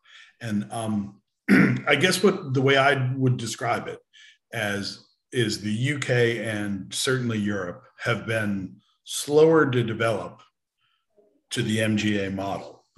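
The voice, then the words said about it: American accent. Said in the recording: “As you can tell by my accent, I grew up in America”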